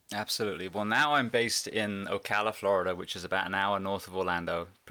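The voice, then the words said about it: Noticeable non-local accent. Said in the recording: “obviously people can tell you have an accent”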